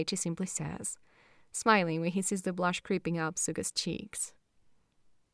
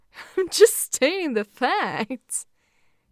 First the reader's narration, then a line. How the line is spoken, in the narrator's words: Daichi laughs